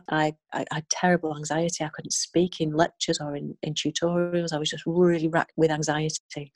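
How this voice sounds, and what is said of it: Strong Northern English accent. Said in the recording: “a very strong Northern accent”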